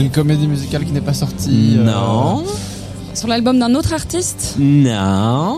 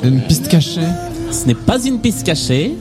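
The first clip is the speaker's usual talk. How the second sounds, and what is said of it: Put-on Québécois French accent. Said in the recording (French): “Pourquoi je pars sur un accent québécois”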